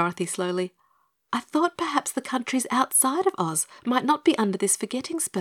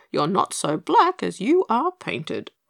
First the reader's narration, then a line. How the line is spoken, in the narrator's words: chuckled Pegasus, breaking into rhyme from sheer good humour and relief